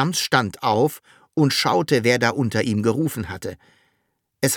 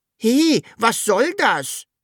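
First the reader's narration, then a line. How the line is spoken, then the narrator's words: Calling upward. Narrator (German): rief das Sams zur Wunschmaschine hoch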